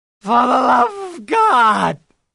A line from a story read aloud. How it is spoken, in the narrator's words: shrieked